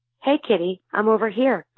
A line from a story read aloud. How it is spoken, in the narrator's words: the hawk called out